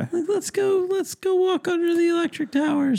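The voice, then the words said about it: Put-on little girl voice. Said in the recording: “I do like one little girl voice ... I got one voice for children under 8”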